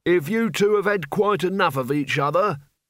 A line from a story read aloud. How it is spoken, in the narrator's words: bellowed Albert above the roar of sand